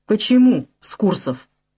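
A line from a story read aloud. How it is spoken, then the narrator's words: Asked through gritted teeth. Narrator (Russian): сквозь зубы спрашивает он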